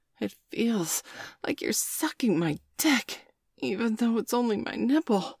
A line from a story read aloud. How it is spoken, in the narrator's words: Bailey gasped